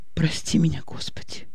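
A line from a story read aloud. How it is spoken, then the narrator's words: Whispered. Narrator (Russian): прошептала Аня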